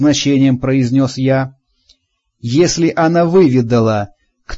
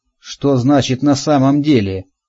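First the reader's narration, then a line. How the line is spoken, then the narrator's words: Dry. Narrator (Russian): сухо произнесла она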